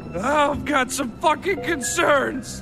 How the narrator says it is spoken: He screamed

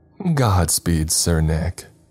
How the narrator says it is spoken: Erica laughed

